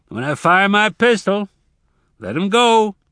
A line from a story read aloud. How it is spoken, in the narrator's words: Hendry shouted